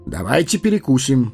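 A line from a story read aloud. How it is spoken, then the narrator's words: Brisk cheerful voice. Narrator (Russian): бодрым голосом предложил странник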